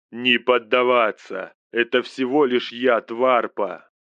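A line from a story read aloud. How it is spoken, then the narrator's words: Roar. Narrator (Russian): проревел Максим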